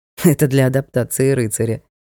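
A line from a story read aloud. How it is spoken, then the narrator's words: Amused snort. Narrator (Russian): хмыкнул Ник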